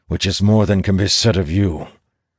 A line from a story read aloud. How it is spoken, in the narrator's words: Elias replies through gritted teeth